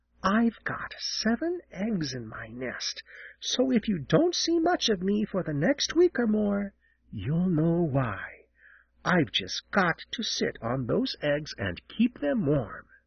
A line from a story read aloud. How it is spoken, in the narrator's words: Jenny leaned so far down that Peter wondered how she could keep from falling as she whispered